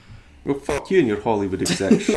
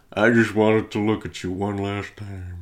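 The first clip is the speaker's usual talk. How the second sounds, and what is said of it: Imitates another person's voice. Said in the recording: “Bradley Cooper and his Sam Elliott impersonation.”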